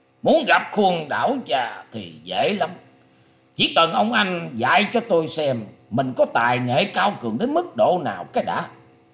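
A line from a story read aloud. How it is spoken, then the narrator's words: Old man's furious harsh shout. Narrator (Vietnamese): lão ta hết sức tức giận, gằn giọng quát rằng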